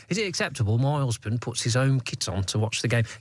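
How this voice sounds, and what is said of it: Put-on Nottingham accent. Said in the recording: “It sort of works in a Nottingham accent ... Yeah, you've made it work.”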